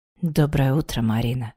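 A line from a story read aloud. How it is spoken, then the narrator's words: Hoarse, passionate. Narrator (Russian): хрипло произнес Дарт, черными от страсти глазами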